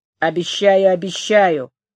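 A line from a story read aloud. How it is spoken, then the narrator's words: Grumbling. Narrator (Russian): проворчал Лестрейд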